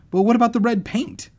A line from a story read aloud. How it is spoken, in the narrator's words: I cried